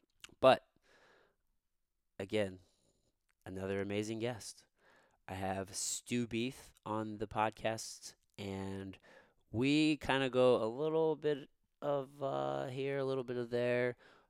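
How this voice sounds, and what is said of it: Raspy voice. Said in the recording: “my shitty-ass raspy voice for the entire time”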